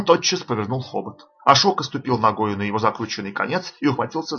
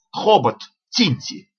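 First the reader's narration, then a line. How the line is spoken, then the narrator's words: Shouted. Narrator (Russian): Ашока крикнул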